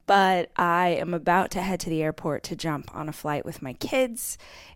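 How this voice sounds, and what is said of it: Groggy, not-yet-awake morning voice. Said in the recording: “my voice sounds like I haven't had coffee yet”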